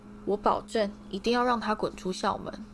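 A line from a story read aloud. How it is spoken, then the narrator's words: Soft, quiet. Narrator (Chinese): 史内普轻声说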